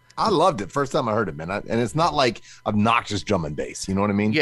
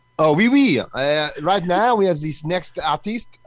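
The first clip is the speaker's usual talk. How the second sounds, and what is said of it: Put-on French accent. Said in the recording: “your French accent”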